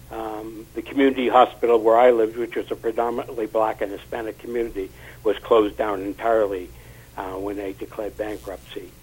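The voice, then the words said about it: Massachusetts accent. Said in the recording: “if you can't tell from my accent, I'm originally from Massachusetts”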